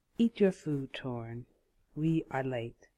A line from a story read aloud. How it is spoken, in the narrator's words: she said